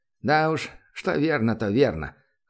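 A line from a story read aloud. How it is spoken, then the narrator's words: Janitor's chuckle. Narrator (Russian): хохотнул уборщик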